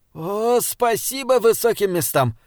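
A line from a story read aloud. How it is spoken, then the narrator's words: Moaning. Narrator (Russian): простонал Бинабик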